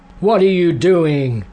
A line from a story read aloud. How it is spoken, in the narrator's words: shouted